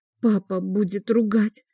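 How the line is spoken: Quiet whisper. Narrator (Russian): шепчет негромко

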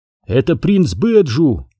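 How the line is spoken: Exclaimed. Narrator (Russian): воскликнул Оби-Ван

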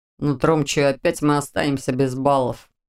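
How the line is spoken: Grumbling. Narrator (Russian): проворчал Виктор

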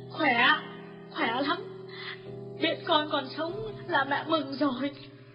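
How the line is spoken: Tearful sniffling. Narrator (Vietnamese): Bà Lương sụt sùi mãi mới trả lời được

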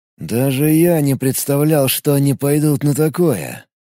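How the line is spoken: Grim. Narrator (Russian): мрачно произнес Гриша

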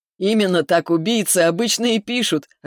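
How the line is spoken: Loud laughter. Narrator (Russian): расхохотался Виктор

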